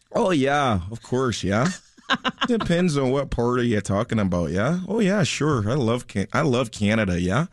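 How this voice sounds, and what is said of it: Put-on Canadian accent. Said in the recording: “Can you do a Canadian accent?”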